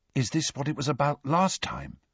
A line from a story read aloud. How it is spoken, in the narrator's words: said Ron in a hushed voice